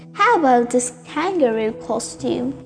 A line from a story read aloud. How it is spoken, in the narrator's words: Daisy's mother said